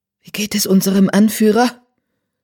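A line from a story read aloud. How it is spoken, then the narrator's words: Fearful question. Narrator (German): fragte mit angstvoller Stimme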